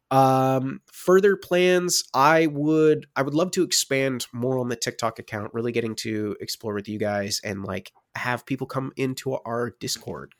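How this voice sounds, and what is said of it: Congested, stuffy sick-sounding voice. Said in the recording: “Right now I'm unfortunately down with a cold, if you couldn't tell from my voice.”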